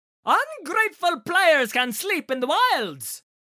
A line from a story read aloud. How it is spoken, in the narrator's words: Eleusion spat